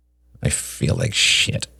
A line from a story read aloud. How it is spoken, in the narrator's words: he muttered